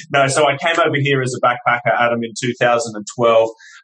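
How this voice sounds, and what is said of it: Foreign, non-local accent. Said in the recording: “you can probably tell by my voice, I'm not from this country”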